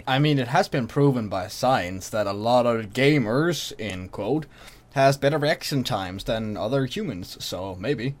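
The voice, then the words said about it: Speaks with a noticeable accent. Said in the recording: “It's just your accent fucks me up.”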